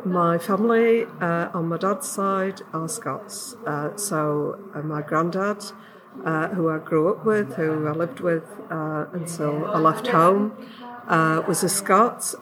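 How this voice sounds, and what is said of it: English Yorkshire accent. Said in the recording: “you don't sound very Scottish ... my voice is, an English voice, and I come from Yorkshire”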